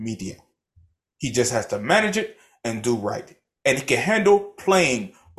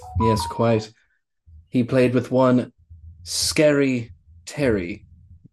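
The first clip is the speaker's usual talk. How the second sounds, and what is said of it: Put-on British accent with African hint. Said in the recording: “what kind of accent was that, man? ... That is my British accent with a ah! hint of Africa. ... with a hint of Wakanda.”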